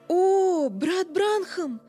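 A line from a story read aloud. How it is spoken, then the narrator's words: Exclaiming. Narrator (Russian): воскликнула она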